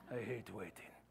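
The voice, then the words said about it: Inigo Montoya character accent. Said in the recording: “That was in my Indigo Montoya accent.”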